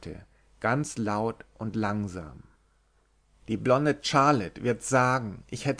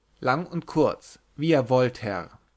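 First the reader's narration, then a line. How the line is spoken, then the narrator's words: Plain. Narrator (German): antwortete der Gefragte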